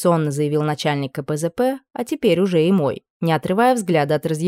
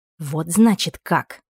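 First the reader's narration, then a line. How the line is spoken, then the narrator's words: Hissed. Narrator (Russian): прошипела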